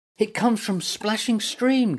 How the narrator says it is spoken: gasped Woeful

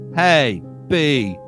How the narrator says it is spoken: called out

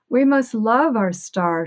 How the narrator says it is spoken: she cried

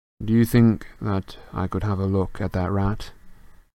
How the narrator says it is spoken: He said evenly

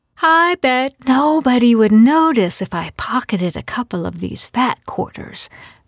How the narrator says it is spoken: Marianne said in a loud fake whisper

